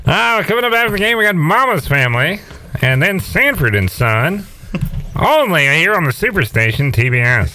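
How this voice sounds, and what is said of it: Sportscaster announcer impression. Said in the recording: “Skip Carey calls all the games ... That impression is getting better and better.”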